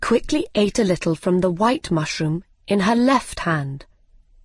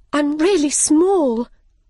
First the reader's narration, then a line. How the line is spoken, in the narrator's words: she cried